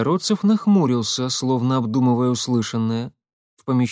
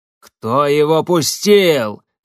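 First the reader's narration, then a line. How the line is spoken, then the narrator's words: Bark. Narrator (Russian): рявкнул Кайгородцев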